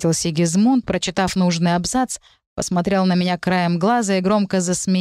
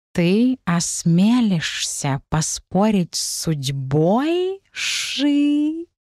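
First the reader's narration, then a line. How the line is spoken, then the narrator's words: Catlike angry hiss, half-serious. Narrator (Russian): прошипел Сигизмунд своим фирменным кошачьим злым голосом, но все же не хватало в его тоне некой серьезности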